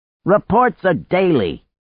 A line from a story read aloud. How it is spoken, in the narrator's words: Coyote shouted from the kitchen